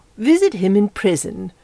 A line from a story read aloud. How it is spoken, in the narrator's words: said indignantly